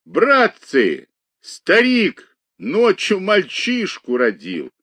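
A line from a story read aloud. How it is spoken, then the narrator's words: Loud laughing shout. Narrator (Russian): Он громко засмеялся и крикнул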